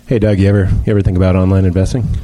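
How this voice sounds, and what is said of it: Baby character in a man's voice. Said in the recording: “it's not exactly your voice either ... The E-Trade baby is a really subtle character that you play”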